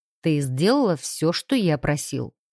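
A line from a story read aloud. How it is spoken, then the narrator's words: Dry businesslike tone. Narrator (Russian): Сухим деловым тоном поинтересовался Алекс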